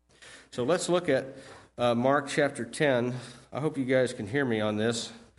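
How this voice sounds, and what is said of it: Voice with a slight cold. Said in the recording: “I've got a little bit of a cold”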